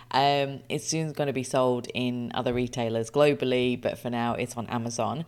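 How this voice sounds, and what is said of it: Excited, energetic voice. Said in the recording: “as you can hear from my voice, I am incredibly excited.”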